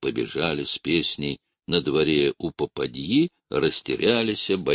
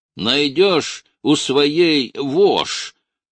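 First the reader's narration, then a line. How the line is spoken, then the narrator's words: Bass shout from crowd. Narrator (Russian): крикнул из кучки бас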